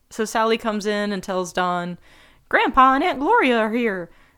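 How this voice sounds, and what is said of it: Imitates a character's voice. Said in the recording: “my Sally impression”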